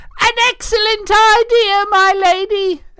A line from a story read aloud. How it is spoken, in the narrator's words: Elaine said, and she laughed so hard